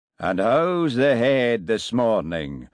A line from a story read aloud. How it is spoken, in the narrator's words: boomed Jock, his voice just as loud and resonant over the phone